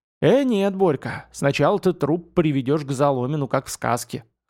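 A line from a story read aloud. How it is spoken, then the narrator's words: Chuckle. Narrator (Russian): хохотнул Яшка Бондарь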